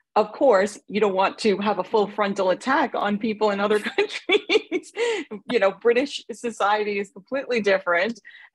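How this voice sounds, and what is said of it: New York accent. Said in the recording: “I am very much like the quintessential New Yorker ... I would not want to lose my accent or my sort of New York sassiness”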